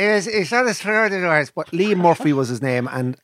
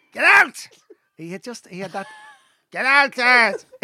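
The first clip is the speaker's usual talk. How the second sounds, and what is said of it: Imitates another person's voice. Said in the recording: “can do a good impersonation of him”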